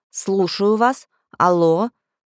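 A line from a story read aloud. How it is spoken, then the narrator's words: Loud. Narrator (Russian): громко сказала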